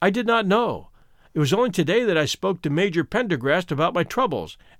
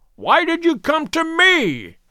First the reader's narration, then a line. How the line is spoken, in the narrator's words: he cried